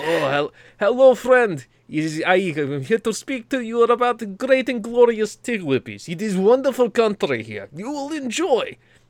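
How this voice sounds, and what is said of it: Put-on Russian accent. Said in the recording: “if I had a strongest accent, it would be Russian”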